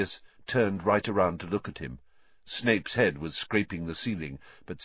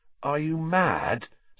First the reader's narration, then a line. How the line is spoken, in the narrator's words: said Harry, his voice easily as croaky as Sirius